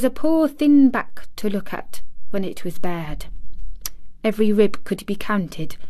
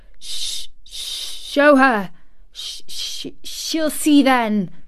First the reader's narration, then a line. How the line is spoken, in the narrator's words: he gasped out between two sobs